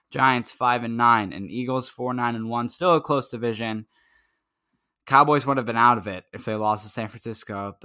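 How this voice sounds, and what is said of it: Strained, fading hoarse voice. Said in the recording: “I'm losing my voice at this point.”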